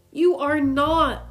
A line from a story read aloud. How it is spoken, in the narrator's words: we all hollered